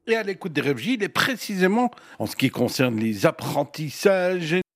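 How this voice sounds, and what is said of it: Regional accent with rolled R. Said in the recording (French): “ces fameux R ... la lettre R, prononcée à la manière tavanoise ... ces « rrrr » dignes du plus bel accent de la vallée des cobras”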